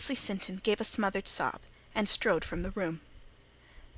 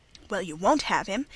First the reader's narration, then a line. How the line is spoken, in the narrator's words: exclaimed Margaret Sinton